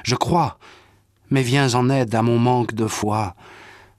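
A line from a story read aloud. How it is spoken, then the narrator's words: Father crying out. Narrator (French): le père de l'enfant s'écrie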